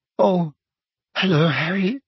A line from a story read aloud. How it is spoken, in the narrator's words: she said in a brittle voice